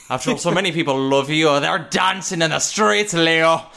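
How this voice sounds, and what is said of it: Singer impression coming out Irish. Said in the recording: “it just comes out Irish ... good impression”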